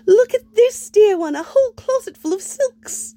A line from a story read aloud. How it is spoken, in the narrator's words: he'd announced brightly to the world